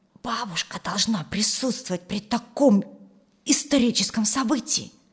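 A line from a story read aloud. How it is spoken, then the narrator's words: Whispered. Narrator (Russian): шепнула Юлия брату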